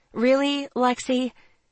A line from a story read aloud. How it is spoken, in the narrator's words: I sighed wearily